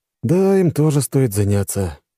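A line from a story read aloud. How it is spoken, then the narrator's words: Sigh. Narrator (Russian): вздохнул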